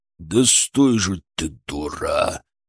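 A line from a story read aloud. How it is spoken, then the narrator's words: Straining growl. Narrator (Russian): прорычал бритоголовый, пытаясь заломить ей руку за спину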